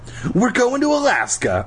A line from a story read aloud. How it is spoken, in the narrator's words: I shouted